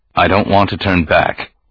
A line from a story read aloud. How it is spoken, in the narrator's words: Organa said flatly